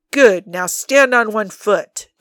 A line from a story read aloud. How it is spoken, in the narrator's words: Dean's booming voice comes through the trees